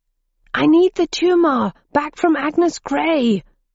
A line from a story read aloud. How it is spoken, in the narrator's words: yelled Roger